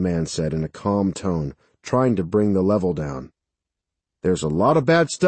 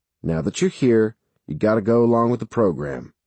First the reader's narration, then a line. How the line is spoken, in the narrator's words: the man said evenly